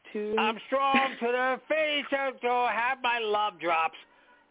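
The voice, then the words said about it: Popeye cartoon sailor voice impression. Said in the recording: “give me a good imitation... What about Popeye the Sailor Man?”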